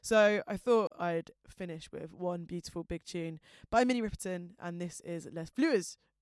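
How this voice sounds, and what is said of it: Fast South London accent. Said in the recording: “I've got a filthy South London accent and speak at the speed of light”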